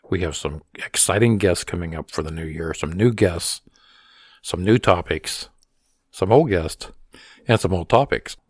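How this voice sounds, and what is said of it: Hoarse, strained voice. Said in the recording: “get my voice back to speaking order ... I've been battling bronchitis for the past month ... I'm kind of losing my voice”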